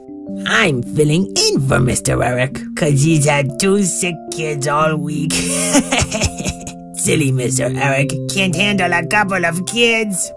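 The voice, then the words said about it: Silly dog character voice. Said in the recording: “I am his dog, Fred, and my tongue is too long for my mouth, which is why sometimes my voice may sound a little different from what you'd expect”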